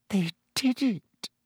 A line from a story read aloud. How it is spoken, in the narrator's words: she whispered to Harry